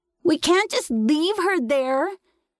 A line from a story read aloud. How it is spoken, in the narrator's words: he screamed at me